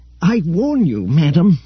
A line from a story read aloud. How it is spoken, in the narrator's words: panted Keldor, hurrying at Roganda's side